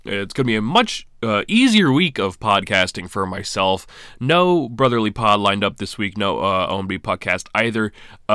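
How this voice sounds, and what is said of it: Sick, slightly rough voice. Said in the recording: “I am a very sick ... if you can't tell. My voice is a little messed up”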